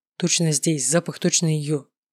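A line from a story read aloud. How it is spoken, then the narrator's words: Excited whisper. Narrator (Russian): возбужденно прошептал я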